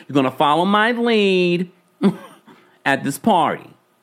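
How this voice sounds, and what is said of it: Put-on Jersey accent. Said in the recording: “I go back with my Jersey accent.”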